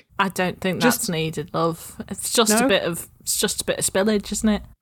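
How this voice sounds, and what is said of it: Put-on accent, inconsistent. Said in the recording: “I don't know where my accent's going ... puts on a different accent”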